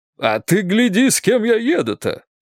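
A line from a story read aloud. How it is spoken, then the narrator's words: Joyful. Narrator (Russian): радостно сказал Прохоров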